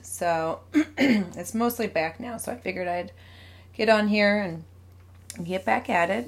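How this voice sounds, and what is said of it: Slightly scratchy, hoarse voice. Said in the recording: “as you can hear, my voice is a little scratchy. I got sick the last couple weeks and lost my voice”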